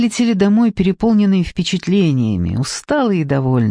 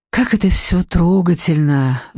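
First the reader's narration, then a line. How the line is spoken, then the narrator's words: Sighing. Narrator (Russian): вздохнула Даниэла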